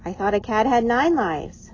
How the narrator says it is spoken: Lindy giggled

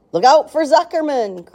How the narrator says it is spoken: yelled the gander

